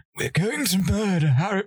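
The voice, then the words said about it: Terrible villain character voice impression. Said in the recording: “my terrible Voldemort impression.”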